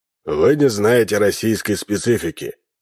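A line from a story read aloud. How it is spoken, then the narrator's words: Dry remark. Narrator (Russian): сухо заметил полковник Ким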